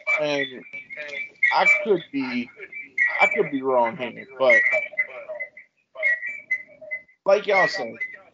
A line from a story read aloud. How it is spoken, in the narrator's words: he laughed at the joke initially